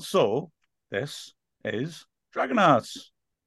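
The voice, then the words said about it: Put-on Welsh accent. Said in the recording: “Said that in a Welsh Wrexhamy accent.”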